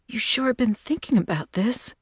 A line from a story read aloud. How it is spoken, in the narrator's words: She heard her voice break